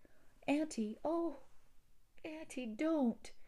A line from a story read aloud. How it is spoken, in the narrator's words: exclaimed Theodora impulsively